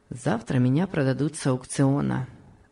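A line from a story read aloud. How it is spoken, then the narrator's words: Calm. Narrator (Russian): спокойно ответил Том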